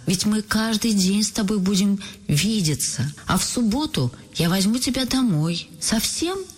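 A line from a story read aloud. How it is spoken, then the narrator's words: Joyful cry. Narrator (Russian): Радостно вскрикивает Галя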